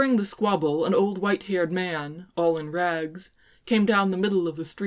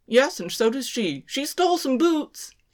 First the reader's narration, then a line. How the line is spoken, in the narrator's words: he called out